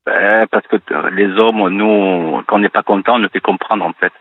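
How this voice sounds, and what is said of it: Southern French accent. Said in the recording (French): “votre charmant accent? ... Oui, du Sud.”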